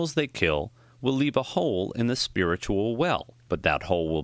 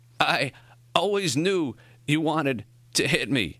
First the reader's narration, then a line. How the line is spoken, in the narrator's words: Morrie gasped